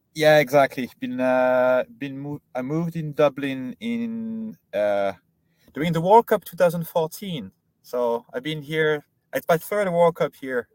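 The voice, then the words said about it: French accent in English. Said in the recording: “it sounds French ... a Frenchman living in Dublin ... I didn't manage to lose the French accent”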